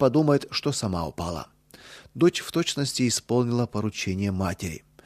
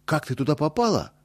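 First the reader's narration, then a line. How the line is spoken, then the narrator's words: Alarmed exclamation. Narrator (Russian): тревожно воскликнул Боря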